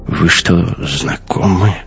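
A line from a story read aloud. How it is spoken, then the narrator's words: Whisper. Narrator (Russian): шепнул Дайне Кох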